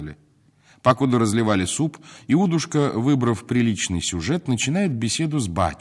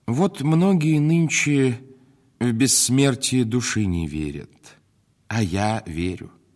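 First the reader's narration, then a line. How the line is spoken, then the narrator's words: Plain. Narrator (Russian): говорит он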